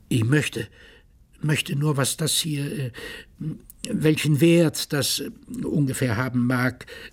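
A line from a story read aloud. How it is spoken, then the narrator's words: Stutter. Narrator (German): stotterte er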